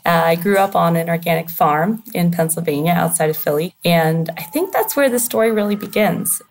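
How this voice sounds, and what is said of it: American accent. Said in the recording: “you can tell from my accent, I did not grow up, I'm not from London, from the UK where I am now”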